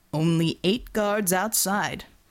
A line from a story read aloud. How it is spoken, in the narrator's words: Borovo rumbled